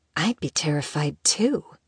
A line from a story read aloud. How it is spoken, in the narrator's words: someone whispered, close enough for Isabel to hear them